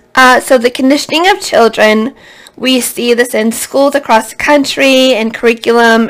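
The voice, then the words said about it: Hoarse, fading voice. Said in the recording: “losing my voice.”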